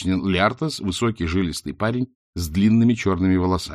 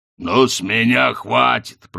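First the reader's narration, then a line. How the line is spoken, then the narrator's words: Growl. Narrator (Russian): прорычал Хрун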